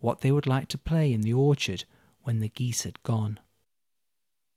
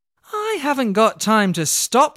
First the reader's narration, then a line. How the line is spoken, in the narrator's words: shouted Olga